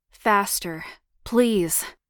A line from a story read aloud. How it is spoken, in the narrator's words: he grunted with arousal